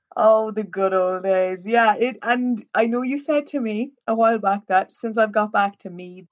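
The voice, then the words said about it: Strong Nobber Irish accent. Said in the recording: “my accent has come out stronger ... a Nobber accent”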